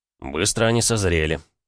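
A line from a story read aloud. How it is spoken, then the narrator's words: Snorting. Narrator (Russian): я хмыкнул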